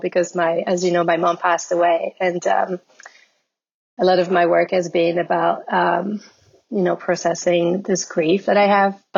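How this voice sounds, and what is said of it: Emotional, voice wavering. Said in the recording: “I'm getting a little emotional”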